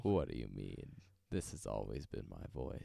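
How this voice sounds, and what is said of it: Put-on unusually low voice. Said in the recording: “are you doing a bit, or is this actually how your voice sounds right now?... doing a bit... are you doing that on purpose?... it's so low... You've never sounded like that.”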